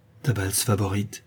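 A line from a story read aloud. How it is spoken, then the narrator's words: Softly spoken. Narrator (French): dit tout bas Zénaïde à sa cousine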